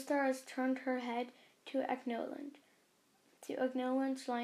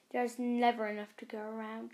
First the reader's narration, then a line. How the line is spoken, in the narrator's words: spat